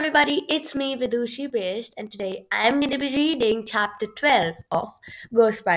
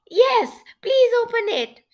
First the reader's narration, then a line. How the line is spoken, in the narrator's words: Shivrina said eagerly